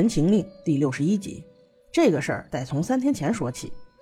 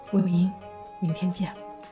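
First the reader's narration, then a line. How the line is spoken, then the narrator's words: Soft, quiet. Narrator (Chinese): 蓝忘机小声道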